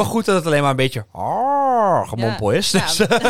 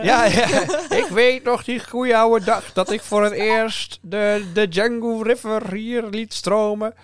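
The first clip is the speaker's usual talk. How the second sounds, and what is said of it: Old man's voice. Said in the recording (Dutch): “Wat voor accent is dit? ... is dit gewoon jouw Achterhoek? ... Dit is geen Achterhoek. ik dacht in het oude mannenstemmetje”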